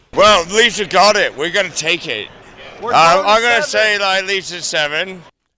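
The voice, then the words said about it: Oshawa accent, possibly drunk-sounding. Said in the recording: “I can't tell if this guy has an accent or if he's just drunk... Accent?... That's an Oshawa accent.”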